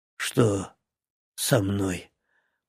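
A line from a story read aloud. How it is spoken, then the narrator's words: Hoarse young man. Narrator (Russian): прохрипел парень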